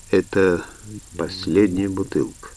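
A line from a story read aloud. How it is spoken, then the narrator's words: Muttered. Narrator (Russian): пробормотал он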